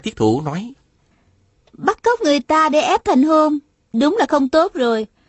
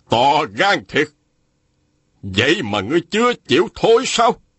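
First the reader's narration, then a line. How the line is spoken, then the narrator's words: Shouting. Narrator (Vietnamese): Phùng Nan Địch quát lên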